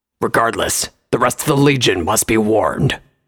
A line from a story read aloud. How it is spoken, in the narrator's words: Vanguard growled